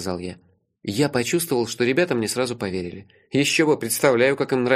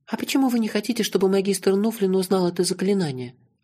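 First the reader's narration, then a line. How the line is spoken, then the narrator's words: Timid girl's question. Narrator (Russian): робко спросила девочка Тила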